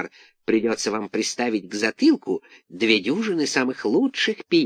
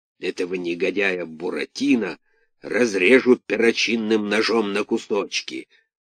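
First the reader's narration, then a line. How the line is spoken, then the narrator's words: Grumbling. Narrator (Russian): ворчал Карабас-Барабас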